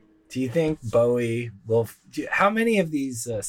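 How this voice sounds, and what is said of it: Usual voice. Nothing is said of it.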